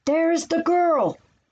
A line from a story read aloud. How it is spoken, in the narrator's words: yelled